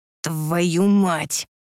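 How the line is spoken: Hiss. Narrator (Russian): прошипел он

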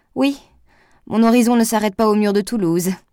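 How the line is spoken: Sneering. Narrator (French): ricana-t-il

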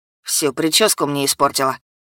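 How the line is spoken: Grumbled. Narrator (Russian): проворчал Уэс

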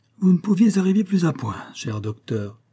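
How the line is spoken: Cordial tone. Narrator (French): me dit-il d'un ton cordial

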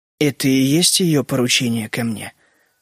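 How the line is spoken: Polite calm question. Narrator (Russian): спросил Генри вежливо и спокойно

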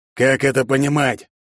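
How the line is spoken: Father shouting. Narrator (Russian): закричал отец

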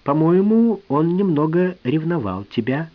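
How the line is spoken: Plain. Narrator (Russian): сказал я

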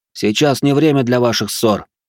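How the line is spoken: Barked shout. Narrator (Russian): рявкнул я на них

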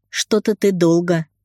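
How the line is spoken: Snorting. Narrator (Russian): хмыкнул друг

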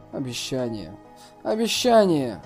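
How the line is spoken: Absent-minded inner muttering. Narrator (Russian): рассеянно бормоча что-то в своем сердце

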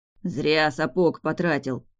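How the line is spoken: Grumbling. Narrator (Russian): проворчал Фарго

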